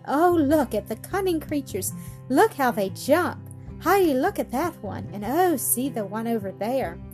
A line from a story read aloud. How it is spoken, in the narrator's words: Clara called out in delight